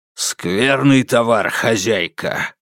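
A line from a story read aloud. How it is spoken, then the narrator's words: Growled. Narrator (Russian): зарычал он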